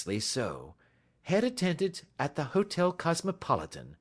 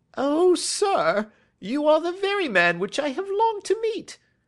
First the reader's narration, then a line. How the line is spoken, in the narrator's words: cried the little fellow